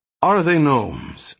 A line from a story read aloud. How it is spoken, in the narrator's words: asked Hendel sharply